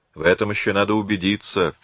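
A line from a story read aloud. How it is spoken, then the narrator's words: Giant's grumble. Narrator (Russian): пробурчал гигант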